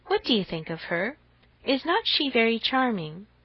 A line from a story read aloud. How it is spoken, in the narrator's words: with a gentle sigh